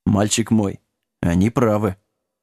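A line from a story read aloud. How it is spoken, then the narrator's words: Quiet mumble. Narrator (Russian): тихо пробормотал Лагун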